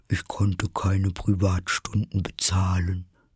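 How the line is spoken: Sighing. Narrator (German): sagte die falsche Schildkröte mit einem Seufzer

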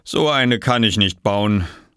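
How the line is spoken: Sighing. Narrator (German): seufzte Bauer Johansen

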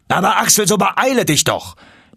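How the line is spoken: Uncle calling from afar. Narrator (German): rief mein Onkel schon von Weitem

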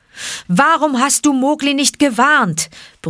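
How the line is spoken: Angry roar. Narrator (German): brüllte er den armen Baloo an

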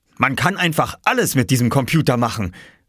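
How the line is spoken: Enthusiastic exclamation. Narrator (German): rief Oskars Papa begeistert

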